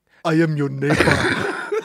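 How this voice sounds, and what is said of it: Put-on Nigerian accent. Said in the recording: “she's doing more of like a Nigerian accent”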